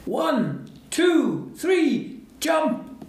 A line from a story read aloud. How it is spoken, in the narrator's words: the dad shouted